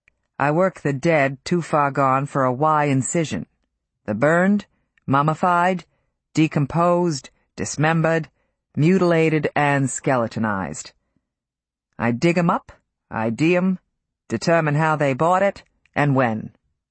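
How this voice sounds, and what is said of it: Deep blue-collar Boston accent. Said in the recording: “The accent was blue-collar Boston, the voice surprisingly deep”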